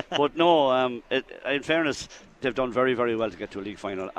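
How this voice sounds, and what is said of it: Hoarse, strained voice. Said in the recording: “my voice was gone”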